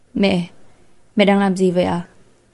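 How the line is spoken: Smiling call. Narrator (Vietnamese): mỉm cười gọi mẹ

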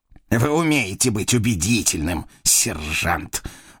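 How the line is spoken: Angry snort. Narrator (Russian): злобно фыркнул Жоффрей

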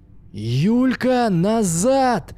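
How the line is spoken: Full-lung shout. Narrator (Russian): во всю мощь своих легких закричал Максим

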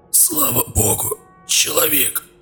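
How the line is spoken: Barely audible rasp. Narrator (Russian): чуть слышно прохрипел

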